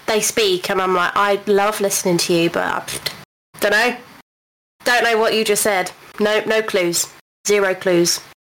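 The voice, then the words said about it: Generic British, London-like accent. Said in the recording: “my accent is the closest to a London accent ... Like a Hollywood British accent ... very kind of generic British”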